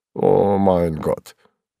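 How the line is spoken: Confused muttering. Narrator (Russian): растерянно пробормотал тот

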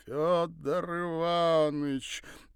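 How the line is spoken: Sing-song, father. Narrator (Russian): нараспев произнес отец

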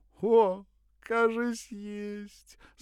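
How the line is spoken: Voluptuous moan from above. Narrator (Russian): сладострастно простонал сверху

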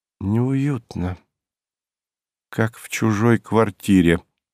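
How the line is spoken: Sad, smiling. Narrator (Russian): грустно улыбнулась Александра

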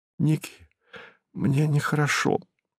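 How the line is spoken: Pale, frightened whisper. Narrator (Russian): шепнула побледневшая Ирина

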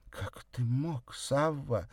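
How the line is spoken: Breathed out. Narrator (Russian): выдохнула она

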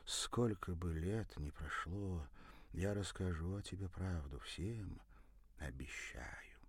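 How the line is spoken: Quiet. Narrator (Russian): тихо произнесла

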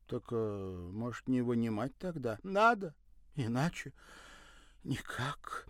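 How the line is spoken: Unhappy sigh. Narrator (Russian): вздохнула несчастная

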